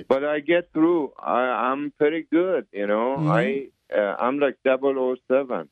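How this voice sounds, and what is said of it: Iranian-accented English. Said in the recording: “I was born in Iran... That's why I have accent. I cannot lose my accent... an Iranian accent”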